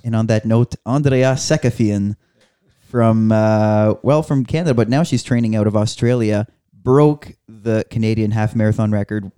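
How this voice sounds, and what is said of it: French Acadian accent in English. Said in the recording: “I had a French accent ... your French accent ... I'm a native French speaker ... You're an Acadian”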